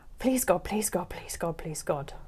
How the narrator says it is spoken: I whispered a desperate mantra, not even aware of my surroundings anymore

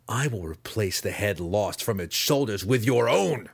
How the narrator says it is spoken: he spat, sincerity dripping from the false words

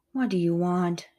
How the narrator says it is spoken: demanded wearily

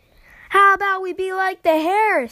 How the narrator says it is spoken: Steve yelled from above

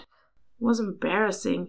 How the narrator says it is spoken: he added softly

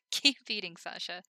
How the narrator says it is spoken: Himmel laughed

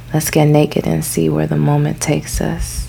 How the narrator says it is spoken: whispered

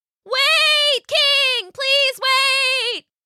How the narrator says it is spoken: shouted as best as she could underwater

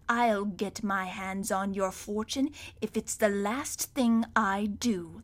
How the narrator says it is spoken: the voice hissed

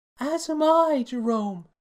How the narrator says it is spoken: bawled Primaria

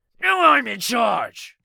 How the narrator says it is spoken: he yelled

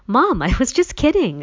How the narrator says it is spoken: I exclaimed

